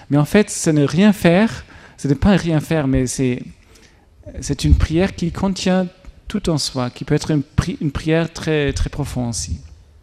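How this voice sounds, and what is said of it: German accent speaking French. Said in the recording (French): “pardon pour mon accent allemand”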